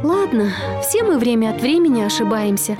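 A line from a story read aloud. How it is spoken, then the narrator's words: Sighing. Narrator (Russian): вздохнула она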